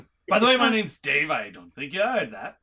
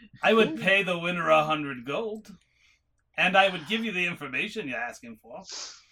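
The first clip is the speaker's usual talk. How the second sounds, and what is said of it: Inconsistent put-on character accent. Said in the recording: “My accent's all over the place with this guy”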